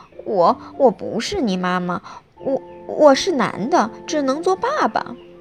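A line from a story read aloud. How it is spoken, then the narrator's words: Frightened stammering. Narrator (Chinese): 狐狸吓呆了，结结巴巴地说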